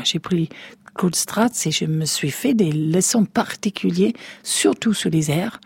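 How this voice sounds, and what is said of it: English speaker's accent in French, German-like. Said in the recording (French): “J'ai pratiquement un accent allemand à force de rouler des airs ... la gorge anglaise est capable de faire des R français”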